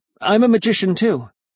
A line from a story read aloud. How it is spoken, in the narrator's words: And then I blurted out